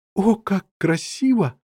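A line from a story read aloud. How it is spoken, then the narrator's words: Exclaiming. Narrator (Russian): воскликнула Лесли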